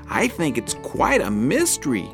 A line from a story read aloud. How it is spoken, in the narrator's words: Flap chirped